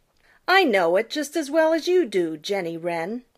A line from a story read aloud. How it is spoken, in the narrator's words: retorted Peter rather crossly